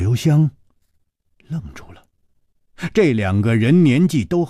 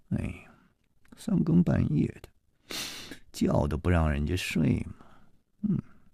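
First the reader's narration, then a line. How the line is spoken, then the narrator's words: Grumpy muttering. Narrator (Chinese): 满脸的不高兴，夜里还喃喃地嘀咕着说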